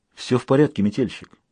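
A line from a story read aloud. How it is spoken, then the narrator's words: Soothing tone. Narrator (Russian): промолвил он успокаивающим тоном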